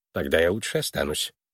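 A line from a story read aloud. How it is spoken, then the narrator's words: Muttered. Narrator (Russian): пробормотал Твисл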